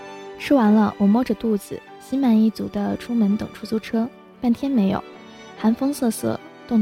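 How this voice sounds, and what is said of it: Usual voice. Nothing is said of it.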